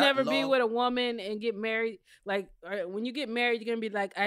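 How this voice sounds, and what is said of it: Usual voice. Nothing is said of it.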